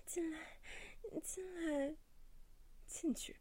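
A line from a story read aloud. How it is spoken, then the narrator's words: Dazed pleading. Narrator (Chinese): 向小明目光迷离地，嘴里一处哀求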